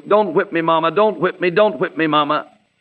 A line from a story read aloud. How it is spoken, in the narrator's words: He was whimpering